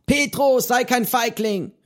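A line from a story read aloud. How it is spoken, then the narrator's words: Called out. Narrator (German): rief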